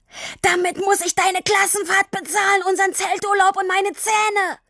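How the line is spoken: Kept bellowing. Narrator (German): Nachdem er ausreichend Luft geholt hatte, brüllte er weiter

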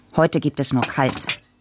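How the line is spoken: Grumpy. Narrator (German): sagte Papa brummig

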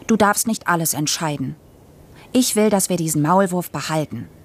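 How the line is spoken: Said sternly. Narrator (German): sagte ich streng

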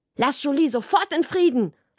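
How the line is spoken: Sharp, cutting voice. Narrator (German): habe ich gesagt, und es hat so scharf geklungen wie Mamas Schweizer Messer

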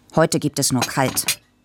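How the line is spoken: Grumpy. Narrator (German): sagte Papa brummig

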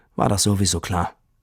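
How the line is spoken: Sad. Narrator (German): Und Tini sagte traurig

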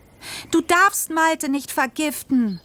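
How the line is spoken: Screaming. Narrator (German): schrie ich

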